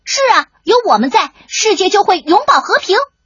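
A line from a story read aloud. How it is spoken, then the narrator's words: Booming loud proclamation. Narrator (Chinese): 大嗓门大声的宣告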